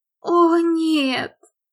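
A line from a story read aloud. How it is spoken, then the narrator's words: Mock-horrified groan. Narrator (Russian): простонала Ли в комическом ужасе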